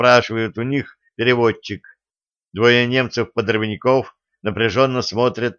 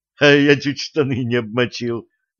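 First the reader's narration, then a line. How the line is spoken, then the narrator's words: Nervous laugh. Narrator (Russian): нервно засмеялся Котька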